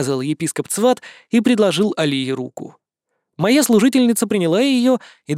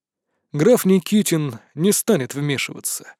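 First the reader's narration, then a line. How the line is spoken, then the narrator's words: Sighed. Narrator (Russian): вздохнул епископ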